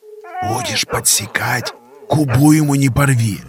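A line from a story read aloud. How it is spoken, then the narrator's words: Hermit's whisper. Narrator (Russian): Прошептал отшельник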